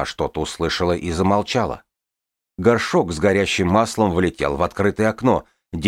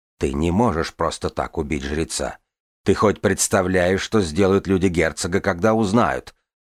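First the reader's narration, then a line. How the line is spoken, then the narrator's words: Skeptical snort. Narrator (Russian): Второй голос хмыкнул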